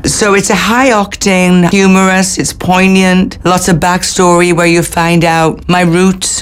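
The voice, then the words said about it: Welsh accent. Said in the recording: “a wonderful Welsh accent ... my own accent”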